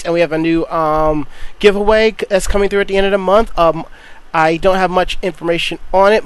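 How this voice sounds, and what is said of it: Worn-out, strained voice. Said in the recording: “my voice is kind of sort of shot ... it kind of sounds like it”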